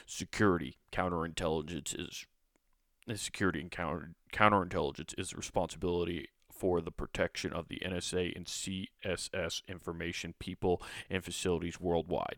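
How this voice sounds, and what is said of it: Very serious reading voice. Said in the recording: “I better read this in a very serious voice rather than the way I was reading it.”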